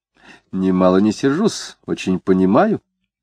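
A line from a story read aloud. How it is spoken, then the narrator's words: Calm, deliberate speech. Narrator (Russian): заговорила она спокойно и как бы вслушиваясь в свои слова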